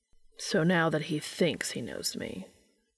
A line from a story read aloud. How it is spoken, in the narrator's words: Castiel said flatly